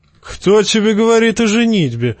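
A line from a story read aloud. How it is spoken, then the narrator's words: Laughing. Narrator (Russian): засмеялся Тормунд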